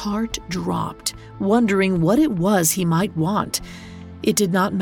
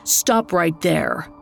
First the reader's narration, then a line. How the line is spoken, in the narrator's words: growled the ferryman